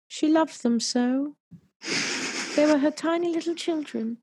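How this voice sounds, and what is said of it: Put-on British accent. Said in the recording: “I don't know why I'm using a British accent.”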